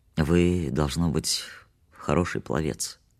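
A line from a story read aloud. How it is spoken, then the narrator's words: Very calm remark. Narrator (Russian): Я заметил очень спокойно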